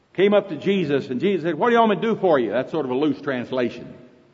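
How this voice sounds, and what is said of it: Oklahoma accent. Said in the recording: “That's Oklahoma English... Is my accent bothering you?... I didn't know whether in Louisiana you can understand Oklahoma or not.”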